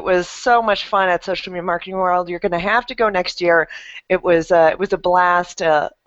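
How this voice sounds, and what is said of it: Slightly raspy voice. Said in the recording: “my voice is a little bit raspy from all the talking I did last week.”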